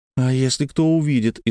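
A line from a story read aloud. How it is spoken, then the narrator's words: Frightened reply. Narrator (Russian): испуганно отозвалась Ульянка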